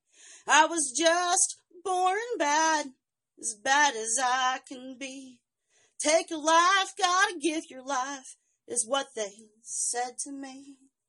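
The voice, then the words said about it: Strong accent while singing. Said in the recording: “my accent pops out really, really hard when I sing this”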